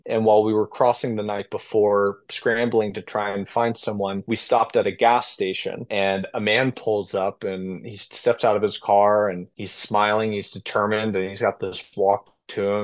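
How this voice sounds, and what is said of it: American English accent. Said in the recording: “speaking English with my American accent”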